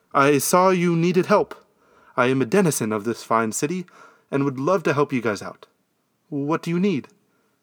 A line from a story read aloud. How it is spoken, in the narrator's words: sputtered out